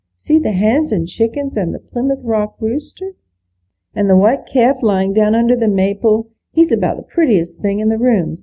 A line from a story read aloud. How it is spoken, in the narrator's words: said Gilbert